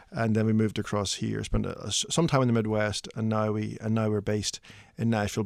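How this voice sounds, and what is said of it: Irish accent. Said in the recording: “your accent says maybe not a Nashville native. ... slightly more East Tennessee, like as far across as Ireland, perhaps.”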